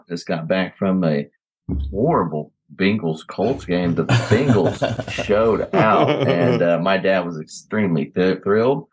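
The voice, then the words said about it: Hoarse, worn-out voice. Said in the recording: “Man, my voice is out... you can hear it in my voice”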